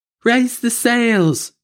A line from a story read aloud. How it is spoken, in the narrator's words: Sylvia cried